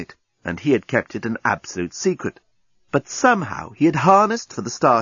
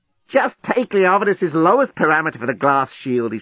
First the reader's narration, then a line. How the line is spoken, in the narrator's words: he snapped